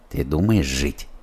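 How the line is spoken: Quiet question. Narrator (Russian): Спросил его негромко Федя

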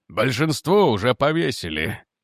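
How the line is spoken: Grim. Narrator (Russian): мрачно сказал Ломас

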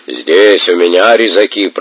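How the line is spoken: Booming deacon. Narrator (Russian): прогудел диакон

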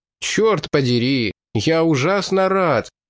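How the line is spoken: Exclaiming. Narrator (Russian): воскликнул тосконец

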